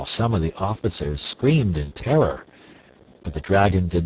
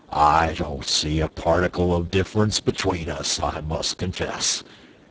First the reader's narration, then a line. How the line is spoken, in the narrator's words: retorted Quox gruffly